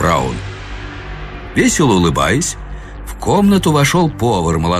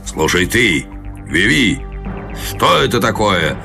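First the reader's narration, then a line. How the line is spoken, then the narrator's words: Growled. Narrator (Russian): прорычал Гарвилл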